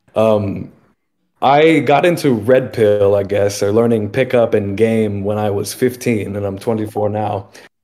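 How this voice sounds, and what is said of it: Hoarse, strained voice. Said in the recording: “pardon me, I lost my voice a couple days ago, food poisoning.”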